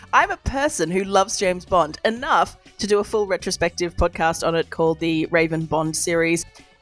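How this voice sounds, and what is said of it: Australian accent. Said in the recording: “I'm in Australia, if you can't tell by the accent”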